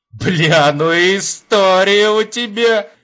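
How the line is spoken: Laughing. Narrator (Russian): Засмеявшись, Епифанов

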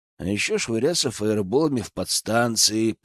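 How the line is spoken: Muttered after someone. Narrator (Russian): пробормотал я вдогонку

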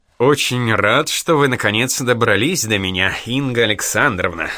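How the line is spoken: Laughing. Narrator (Russian): засмеялся

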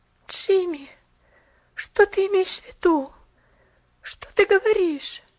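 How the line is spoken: Pitiful pleading. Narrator (Russian): Жалостно взмолилась она

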